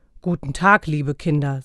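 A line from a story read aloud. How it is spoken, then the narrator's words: Deep voice. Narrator (German): sagte er mit tiefer Stimme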